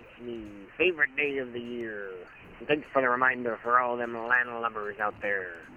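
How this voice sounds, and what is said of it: Not-so-good pirate voice. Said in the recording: “none of the podcast community, environment, whatever you want to call it, really is that good at pirate imitations.”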